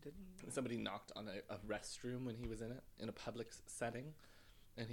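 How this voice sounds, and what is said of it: Usual voice. Nothing is said of it.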